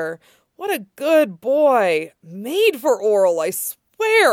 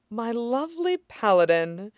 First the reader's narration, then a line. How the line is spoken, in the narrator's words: Allura murmured